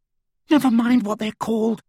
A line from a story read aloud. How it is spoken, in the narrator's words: said Hermione, a little hysterically